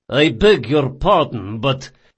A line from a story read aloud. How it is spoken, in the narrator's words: said Maraggio in a cold voice